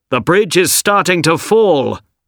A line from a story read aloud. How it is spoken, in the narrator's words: people shouted to the three men